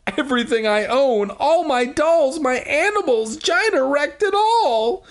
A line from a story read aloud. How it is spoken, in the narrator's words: she cried furiously, like Furiosa from Mad Max Fury Rosa Rosa Mad Do the Thunderdome